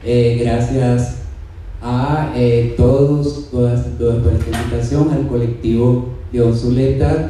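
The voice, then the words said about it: Cuban Spanish accent. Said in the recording (Spanish): “queremos escuchar ese acento cubano, por favor, ... de lo más rico ... y más sabroso”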